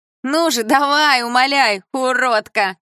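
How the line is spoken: Girl shouting. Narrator (Russian): закричала подружка

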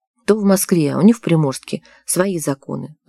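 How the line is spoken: Sighed. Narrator (Russian): вздохнул Дмитрий

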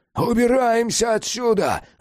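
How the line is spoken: Yelling. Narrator (Russian): завопил Феликс

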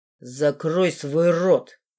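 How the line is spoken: Hoarse rasp. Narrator (Russian): прохрипел Руфус

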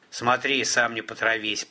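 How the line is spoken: Grumbled. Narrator (Russian): проворчал Бадун

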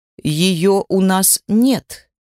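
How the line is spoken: Plain. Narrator (Russian): сказала она

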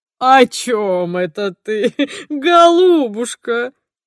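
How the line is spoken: Rapturous giggling. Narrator (Russian): Самозабвенно хихикает он

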